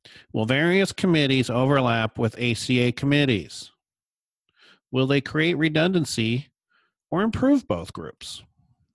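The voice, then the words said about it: Funny put-on questioner voice. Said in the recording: “I'll make up a funny voice for the questions”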